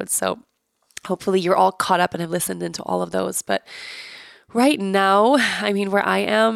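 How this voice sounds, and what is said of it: Sick, congested-sounding voice. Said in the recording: “I'm sick. Obviously, you guys can hear in my voice. It's very clear.”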